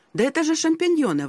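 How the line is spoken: Exclaiming. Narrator (Russian): воскликнул я

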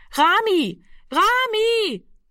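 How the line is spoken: Repeated calling into darkness. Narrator (German): rief fortgesetzt in die Dunkelheit hinein

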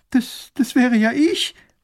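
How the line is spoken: Girl sobbing. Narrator (German): schluchzt das Mädchen

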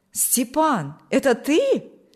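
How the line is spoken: Joyful exclamation. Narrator (Russian): воскликнул Николай обрадованно

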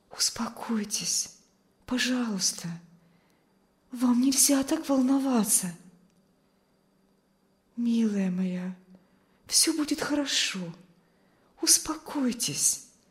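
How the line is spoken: Soothing whisper. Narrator (Russian): шептала миссис Ковальская

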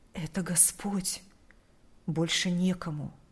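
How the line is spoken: Whispered reply. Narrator (Russian): Прошептал он в ответ

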